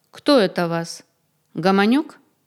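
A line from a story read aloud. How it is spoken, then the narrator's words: Restrained proprietorial tone. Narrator (Russian): спросил человек сдержанным хозяйским тоном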